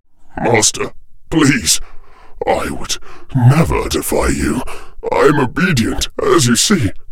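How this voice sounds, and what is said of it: Faltering, distorted pleading voice. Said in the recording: “in a faltering voice, distorted by his skull mask”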